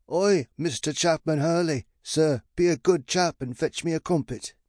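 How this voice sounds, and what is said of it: Bad fake British accent. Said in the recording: “that annoying fake British accent ... his fake accent was atrocious”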